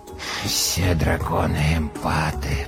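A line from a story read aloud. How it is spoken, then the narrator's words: Muttered. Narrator (Russian): пробормотал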